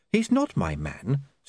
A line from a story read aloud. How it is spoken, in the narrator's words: said Saccharissa evenly